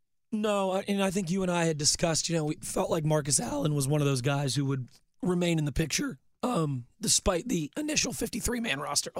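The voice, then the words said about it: Strained, failing hoarse voice. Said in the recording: “my voice is really going south here, isn't it? ... It comes and goes.”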